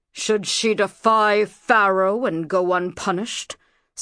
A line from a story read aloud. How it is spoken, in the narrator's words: snarled Senmut